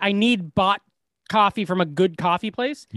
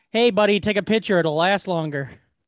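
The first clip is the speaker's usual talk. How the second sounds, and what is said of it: Put-on bartender character voice. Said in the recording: “this is my impression of a helpful bartender.”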